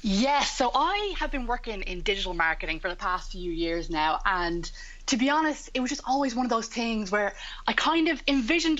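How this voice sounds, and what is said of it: Slightly croaky morning voice. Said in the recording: “my voice sounds a little bit croaky”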